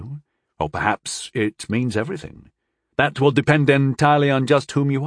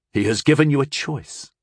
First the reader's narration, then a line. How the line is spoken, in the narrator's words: Tyndall said sharply